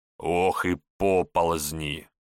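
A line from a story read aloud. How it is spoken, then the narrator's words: Old man grumbling. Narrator (Russian): ворчал на корме святого Георгия старый кормчий Ануфрий Кольцо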